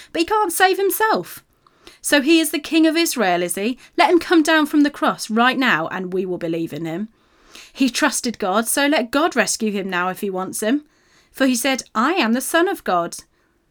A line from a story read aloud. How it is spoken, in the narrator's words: they scoffed